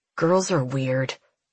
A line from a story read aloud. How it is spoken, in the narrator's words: he mutters to himself